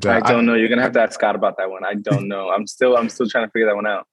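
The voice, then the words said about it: American New York accent. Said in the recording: “people guess by your accent, but you're from the States. New York.”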